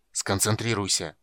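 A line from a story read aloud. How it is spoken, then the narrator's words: Growl. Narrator (Russian): прорычал чародей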